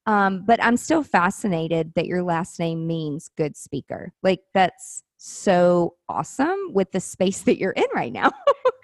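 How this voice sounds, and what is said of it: Southern American accent. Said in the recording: “I have such a Southern accent ... people are like, where are you from? Like the South?”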